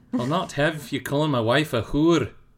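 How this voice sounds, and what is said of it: Put-on Scottish accent. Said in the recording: “a Scottish accent because of Outlander ... That's really good. ... It is good.”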